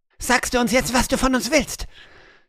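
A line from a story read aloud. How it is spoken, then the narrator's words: Hiss from across row. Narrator (German): zischte Aichi von der anderen Seite der Reihe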